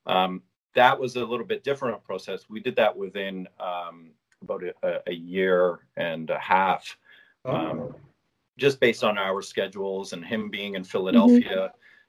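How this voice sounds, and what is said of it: Canadian accent. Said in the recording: “I can hear the Canadian accent coming through.”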